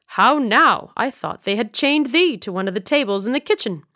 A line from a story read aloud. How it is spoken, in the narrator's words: Brother Stephen said sharply